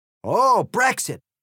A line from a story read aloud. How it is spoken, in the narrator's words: exclaimed the egg, seemingly cheered